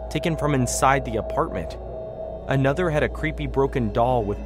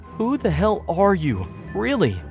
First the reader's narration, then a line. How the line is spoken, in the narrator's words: I asked, my voice trembling with both anger and fear